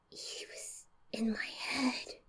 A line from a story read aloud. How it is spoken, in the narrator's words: I whispered, whimpered